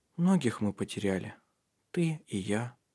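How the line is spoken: Sad remark. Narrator (Russian): печально заметил

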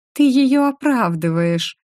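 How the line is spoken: Angry mermaid. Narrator (Russian): рассердилась русалка

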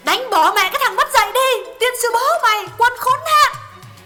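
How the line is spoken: Angry shout. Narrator (Vietnamese): Miệng quát

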